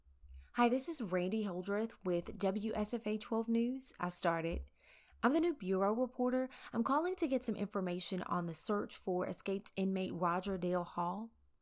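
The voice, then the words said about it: Put-on formal news reporter voice. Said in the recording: “put on my best reporter voice to make a good impression”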